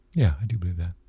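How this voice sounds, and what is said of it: Emotional, choked-up voice. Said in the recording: “sorry, now I'm getting emotional ... why does that make you so emotional?”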